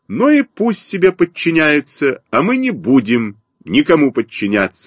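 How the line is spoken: Stubborn voice. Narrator (Russian): сказал упрямым голосом Костя Малинин

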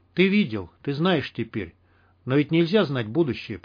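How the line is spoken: Whisper. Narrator (Russian): прошептал я

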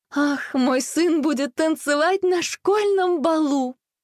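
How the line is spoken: Joyful exclamation. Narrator (Russian): радостно воскликнула она

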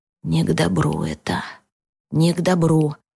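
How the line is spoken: Muttering. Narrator (Russian): бормотал Арсений

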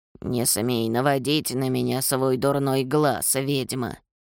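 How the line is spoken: Old woman mumbling. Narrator (Russian): пробормотала сморщенная старуха

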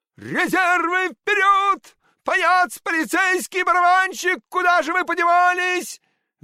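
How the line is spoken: Desperate shouting. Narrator (Russian): В отчаянии кричал Щелкунчик

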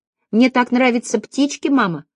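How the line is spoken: Little girl squeaking. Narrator (Russian): пропищала девочка

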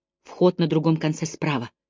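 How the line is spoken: Whisper. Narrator (Russian): прошептала она

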